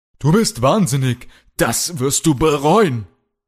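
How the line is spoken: Shout. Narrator (German): schrie Kalle

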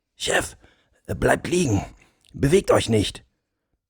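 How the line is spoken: Quiet speech. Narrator (German): sprach er leise zum Oberst

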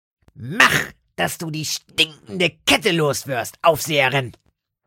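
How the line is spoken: Dull grunt. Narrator (German): grunzte Lotte dumpf

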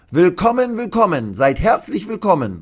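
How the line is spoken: Call. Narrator (German): ruft

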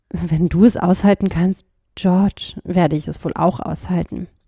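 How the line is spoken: Said quietly. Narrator (German): sagte leise

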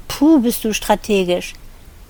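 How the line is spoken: Groaning. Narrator (German): sie stöhnte dieses Wort nur noch

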